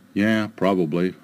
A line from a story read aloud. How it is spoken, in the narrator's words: I said